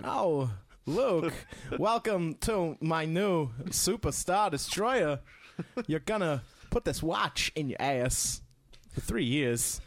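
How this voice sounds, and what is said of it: Bad Christopher Walken impression. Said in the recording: “worst Christopher Walken impression”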